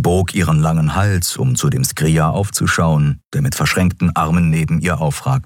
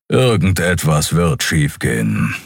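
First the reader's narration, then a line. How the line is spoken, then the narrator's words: Growling. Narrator (German): knurrte Keru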